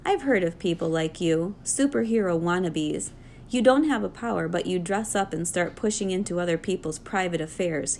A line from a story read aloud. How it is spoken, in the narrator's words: snorted